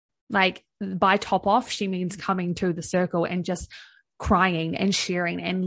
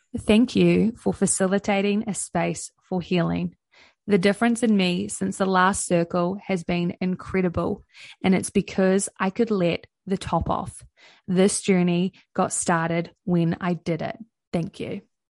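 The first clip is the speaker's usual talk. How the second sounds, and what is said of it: Slow, sultry radio-announcer voice. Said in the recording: “read it slowly... I'll put my sexy X radio voice on”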